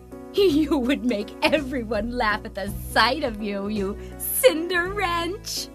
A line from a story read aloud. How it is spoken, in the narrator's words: The sisters laughed cruelly and said